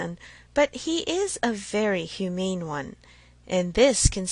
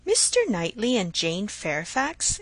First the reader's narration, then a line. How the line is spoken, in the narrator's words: exclaimed Emma